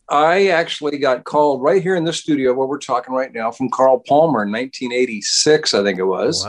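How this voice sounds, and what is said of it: American accent. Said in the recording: “You're obviously American, as we can tell from your accent”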